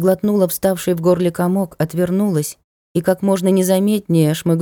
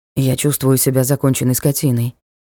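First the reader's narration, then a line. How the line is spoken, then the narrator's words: Muttered. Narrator (Russian): пробормотал Ник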